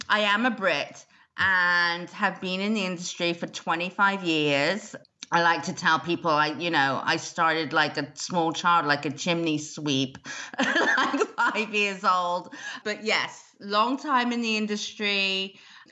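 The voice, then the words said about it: British accent, somewhat mixed. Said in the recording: “I'm originally hailing from the UK... the accent's a bit strange... whether I'm Australian, South African, American or British”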